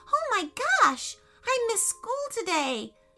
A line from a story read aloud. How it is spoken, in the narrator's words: exclaimed, panicking